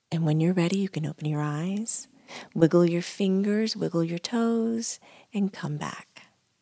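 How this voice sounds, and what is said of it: Calm, soothing voice. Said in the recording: “My voice is calm, much like this.”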